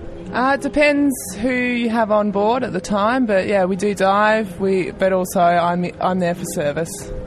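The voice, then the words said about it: Tasmanian accent. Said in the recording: “Louisiana accent ... No, this is actually a Tasmanian accent.”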